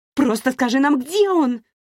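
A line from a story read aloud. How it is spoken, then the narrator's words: Shout. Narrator (Russian): крикнула Ширли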